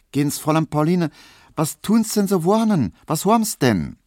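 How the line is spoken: Asking. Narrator (German): Poldi Nowotny fragt

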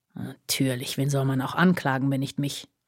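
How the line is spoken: Snorting murmur. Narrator (German): murmelte er schnaubend

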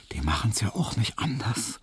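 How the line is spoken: Smiling whisper. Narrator (German): flüsterte ihm Hedwig lächelnd zu

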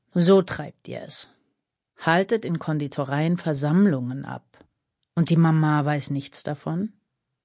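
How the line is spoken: Grumbling. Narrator (German): brummte Bieljajew

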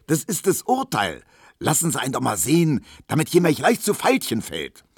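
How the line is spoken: Shouted. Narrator (German): schrie Tisch

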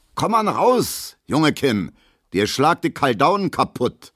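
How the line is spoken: Calling after someone. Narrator (German): ruft Gustav Schmelo hinterher

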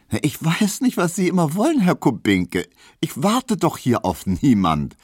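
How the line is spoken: Laughing retort, hitting home. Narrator (German): versetzte Hedwig lachend, denn sie fühlte, dass sie hiermit traf

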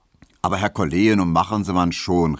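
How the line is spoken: Calling out. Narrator (German): rief Herr Tesch

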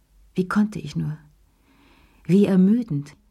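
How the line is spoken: Sighing. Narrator (German): seufzte sie

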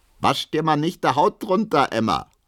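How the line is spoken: Called out. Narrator (German): ruft Hedwig

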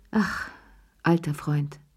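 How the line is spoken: Grateful sigh. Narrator (German): seufzte Cherie dankbar

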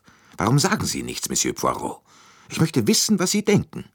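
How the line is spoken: Sudden annoyance, curt question. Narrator (German): mit jähem Unmut fragte sie schroff

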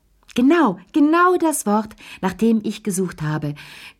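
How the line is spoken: Shrieking with delight. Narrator (German): kreischte Madame Pellou strahlend

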